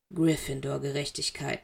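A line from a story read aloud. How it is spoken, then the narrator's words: Bitter murmur. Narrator (German): murmelte Severus, aber die Worte schmeckten bitter auf seinen Lippen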